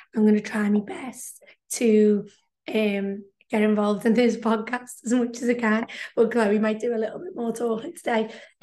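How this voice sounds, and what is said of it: Hoarse, nearly lost voice. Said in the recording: “I've actually lost my voice”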